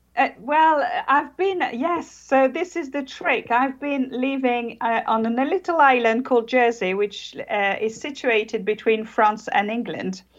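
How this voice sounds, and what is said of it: British-sounding accent, French speaker. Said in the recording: “we hear the accent... I am actually French... But you sound British, though.”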